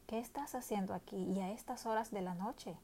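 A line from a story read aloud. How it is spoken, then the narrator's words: Soft, slightly annoyed question. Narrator (Spanish): preguntó en un tono suave pero un poco molesto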